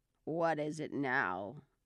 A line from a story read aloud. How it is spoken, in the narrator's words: the frog said in a deep, hoarse whisper